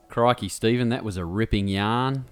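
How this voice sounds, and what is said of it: Bad put-on Australian accent. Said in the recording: “You both hurt me. You physically hurt me with that... at least I'm not trying to do the accent... I cannot do the Australian accent.”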